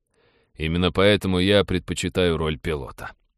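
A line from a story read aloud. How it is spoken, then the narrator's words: Embarrassed grumble. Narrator (Russian): смущенно проворчал парень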